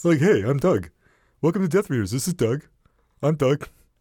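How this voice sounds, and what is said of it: Cartoonish imitation of another person's voice. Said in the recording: “What is that voice? ... That's you. This is what you sound like. ... It's a Hanna-Barbera character. ... It sounds like Snagglepuss without the without the flouncy bit.”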